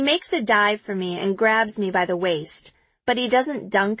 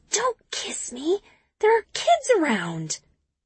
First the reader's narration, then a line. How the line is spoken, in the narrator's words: I push him away and whisper